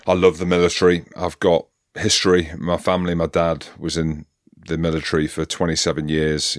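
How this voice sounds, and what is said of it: Hybrid British accent. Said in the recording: “I sit here with a hybrid accent”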